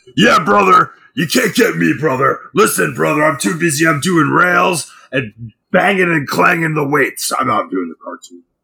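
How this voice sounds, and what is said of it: Hulk Hogan impression. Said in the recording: “He was Hulk Hogan's voice... that impression”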